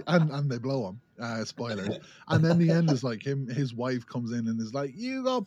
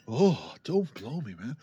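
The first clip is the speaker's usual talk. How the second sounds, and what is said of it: Imitates a movie character's voice. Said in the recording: “doing a John Wick impression.”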